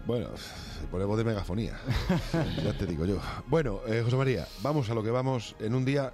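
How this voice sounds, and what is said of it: Deep, cavernous, congested voice. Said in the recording (Spanish): “Con voz de hombre te veo hoy ... Hombre cavernoso ... tengo alergia ... Tengo rinitis ... tengo un oso polar en la nariz ... se pone la voz”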